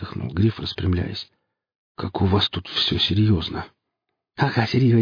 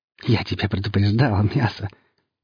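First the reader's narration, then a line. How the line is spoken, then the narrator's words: Choking laughter. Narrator (Russian): засмеялся он, захлебываясь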